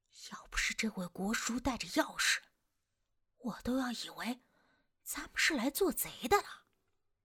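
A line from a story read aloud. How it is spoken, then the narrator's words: Whisper. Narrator (Chinese): 丁力在我身边小声的说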